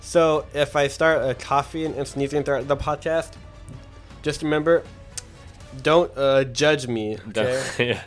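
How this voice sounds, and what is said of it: Weak, hoarse sick voice. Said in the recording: “I've been, like, sick ... I can tell ... my voice is a little not there”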